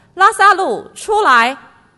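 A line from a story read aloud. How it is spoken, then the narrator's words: Loud calling out. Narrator (Chinese): 他大声呼叫说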